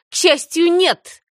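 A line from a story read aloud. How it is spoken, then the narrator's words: Contemptuous snort. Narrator (Russian): презрительно фыркнула Даяна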